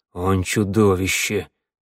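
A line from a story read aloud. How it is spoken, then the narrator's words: Breathless exclamation. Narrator (Russian): выдохнул Вангели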